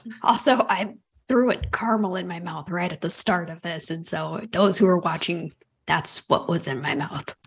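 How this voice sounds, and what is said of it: Sick-sounding, cold-affected voice. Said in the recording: “it's cold season, so this is not me doing the voice. It is just my voice.”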